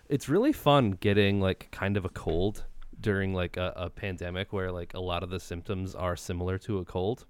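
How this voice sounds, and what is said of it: Congested voice from a cold. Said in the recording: “I've got a little bit of a cold, if you can't tell. I've got my NPR voice going ... an annoying sore throat”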